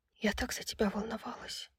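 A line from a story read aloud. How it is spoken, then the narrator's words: Whispered. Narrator (Russian): прошептала она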